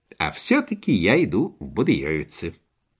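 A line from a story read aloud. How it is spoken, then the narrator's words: Calm, dignified reply. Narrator (Russian): спокойно и с достоинством ответил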